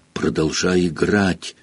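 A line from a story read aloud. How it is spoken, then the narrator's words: Whispered. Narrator (Russian): шепнул Рон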